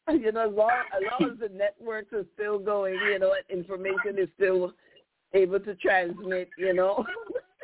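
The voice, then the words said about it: African accent. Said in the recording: “You have some African accent, I think.”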